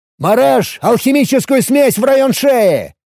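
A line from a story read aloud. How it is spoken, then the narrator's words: Shout. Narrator (Russian): выкрикнул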